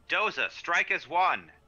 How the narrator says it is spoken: I'm going to shout

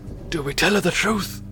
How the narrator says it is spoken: He whispers

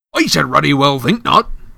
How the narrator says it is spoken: growled Hagrid

